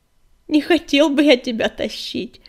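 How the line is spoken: Laughing. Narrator (Russian): засмеялся Огнегриф

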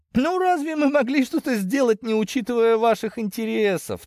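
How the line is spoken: Laughing. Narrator (Russian): рассмеялся Пирогов

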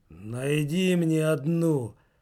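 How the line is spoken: Hiss. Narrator (Russian): прошипел Верзила

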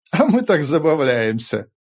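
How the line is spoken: Laughing chorus. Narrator (Russian): засмеялись Сиды

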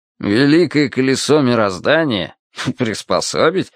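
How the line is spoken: Skeptical snort. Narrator (Russian): хмыкнул Виталя

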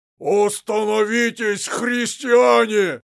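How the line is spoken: Loud shout. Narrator (Russian): прокричал Дионисий

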